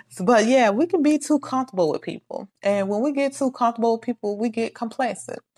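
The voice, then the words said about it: Mississippi Southern accent. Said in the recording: “y'all know I'm Mississippian, so don't judge my accent.”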